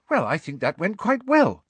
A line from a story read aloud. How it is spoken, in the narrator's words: said Hermione happily